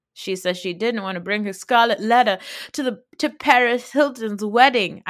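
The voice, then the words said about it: Put-on 1920s actress voice. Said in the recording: “she goes full Southern white woman ... I don't think that's a Southern accent. I think I just did like a 1920s actress.”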